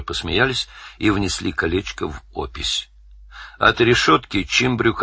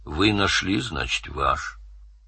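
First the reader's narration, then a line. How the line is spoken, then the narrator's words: Sad. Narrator (Russian): Чимбря, печально глядя в пространство, сказал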